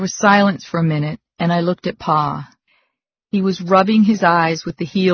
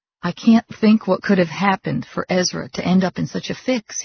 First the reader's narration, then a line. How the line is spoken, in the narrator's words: he said